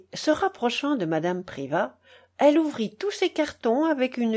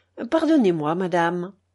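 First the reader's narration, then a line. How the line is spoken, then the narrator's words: Cold reply. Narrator (French): répondit froidement Geneviève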